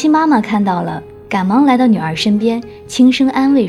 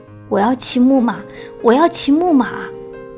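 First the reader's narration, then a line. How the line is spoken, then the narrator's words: Sobbing. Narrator (Chinese): 袁心 忍不住就呜呜地哭了 一边哭一边说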